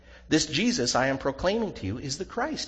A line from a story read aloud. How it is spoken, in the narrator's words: he said